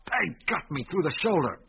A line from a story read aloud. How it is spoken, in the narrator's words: snarled the constable